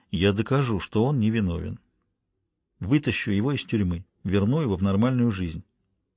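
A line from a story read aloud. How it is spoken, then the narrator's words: Quiet. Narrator (Russian): тихо произнес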